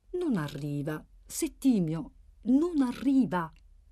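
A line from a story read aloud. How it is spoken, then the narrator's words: Calm voice. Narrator (Italian): Samuele, che disse con voce calma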